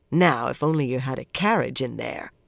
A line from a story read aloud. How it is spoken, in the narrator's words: Swan grumbled